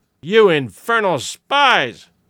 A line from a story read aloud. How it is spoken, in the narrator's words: the man cried